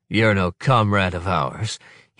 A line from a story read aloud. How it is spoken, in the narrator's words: he grunts